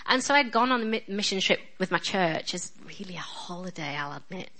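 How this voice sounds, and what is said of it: Strong northern English accent. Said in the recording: “Excuse my accent, by the way. I know I'm ridiculously northern. ... they thought I was Scottish because I am so northern ... please excuse my accent”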